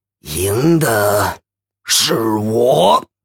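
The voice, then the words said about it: Quiet sneering voice. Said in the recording (Chinese): “冷笑着小声说”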